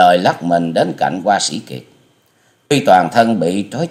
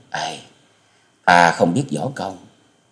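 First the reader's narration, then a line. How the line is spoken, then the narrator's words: Sighing. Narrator (Vietnamese): Tư Đồ Hồng thở dài nói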